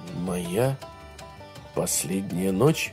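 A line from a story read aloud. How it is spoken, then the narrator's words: Muttering. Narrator (Russian): пробормотал Грей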